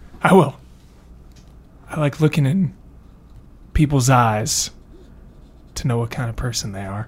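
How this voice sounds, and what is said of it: Put-on Western accent. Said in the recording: “You've developed some sort of Western accent that I really like.”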